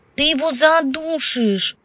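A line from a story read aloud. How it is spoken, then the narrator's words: Hysterical shout. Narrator (Russian): истерически крикнула Евгения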